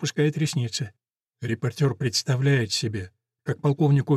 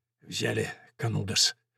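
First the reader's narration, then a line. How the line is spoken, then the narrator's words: Hoarse, barely moving lips. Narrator (Russian): спрашивает он хрипловато, еле шевеля губами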